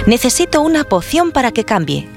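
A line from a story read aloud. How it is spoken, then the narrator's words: Exclaimed. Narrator (Spanish): exclamó Yukok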